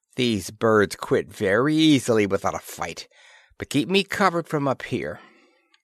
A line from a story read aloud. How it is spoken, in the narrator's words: muttered Disbrow